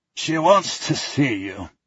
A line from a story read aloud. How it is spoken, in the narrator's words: he croaks